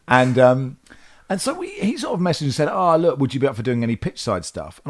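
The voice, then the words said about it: English accent. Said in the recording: “you've got an English accent”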